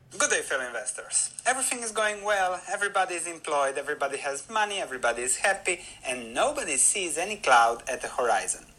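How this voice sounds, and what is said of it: Speaker with a distinctive accent. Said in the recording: “the guy has a really cool accent ... I told you he had a cool accent.”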